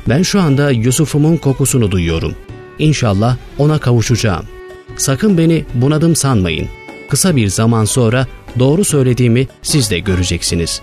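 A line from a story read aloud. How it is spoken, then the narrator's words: Plain. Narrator (Turkish): dedi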